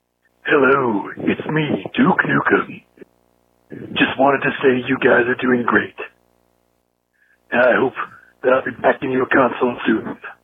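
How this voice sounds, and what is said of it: Bad Duke Nukem character voice. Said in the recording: “terrible, terrible impression”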